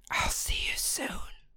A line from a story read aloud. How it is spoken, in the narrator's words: she whispered